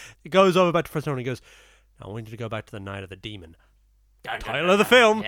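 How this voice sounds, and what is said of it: Usual voice. Nothing is said of it.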